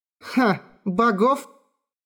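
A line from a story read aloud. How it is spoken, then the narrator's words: Laughing. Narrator (Russian): Рассмеялась Хора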